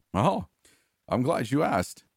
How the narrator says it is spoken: chuckled

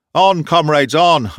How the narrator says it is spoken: I shouted once more

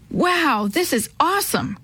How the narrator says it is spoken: Chris exclaimed when he saw the falls

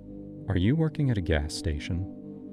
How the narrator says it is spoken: said, her voice too calm

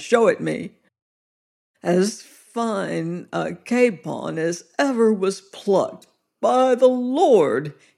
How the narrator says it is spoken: he groaned

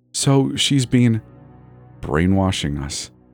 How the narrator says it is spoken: Eli mumbled into Callie's pillow

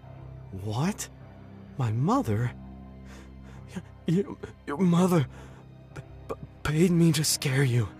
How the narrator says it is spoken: sputtered

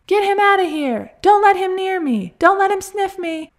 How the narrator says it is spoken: Fred shouted

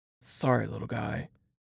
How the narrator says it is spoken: he muttered

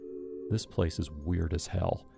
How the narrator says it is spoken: he said quietly

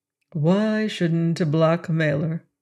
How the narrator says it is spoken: asked Brown in a low voice

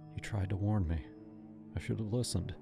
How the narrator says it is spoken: whispered

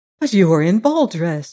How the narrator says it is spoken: he cried in amazement

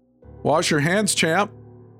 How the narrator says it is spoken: shouted after him

